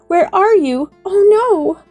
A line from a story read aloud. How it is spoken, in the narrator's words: she sobbed